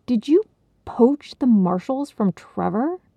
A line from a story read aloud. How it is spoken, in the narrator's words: began in a tight voice